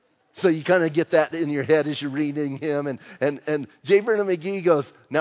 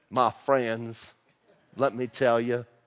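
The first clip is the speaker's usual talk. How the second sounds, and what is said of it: Imitating J. Vernon McGee's accent. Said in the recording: “I was reading J. Vernon McGee ... I like to think of his accent.”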